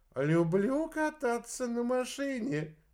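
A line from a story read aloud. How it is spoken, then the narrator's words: Cheerful. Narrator (Russian): весело произнес Галилей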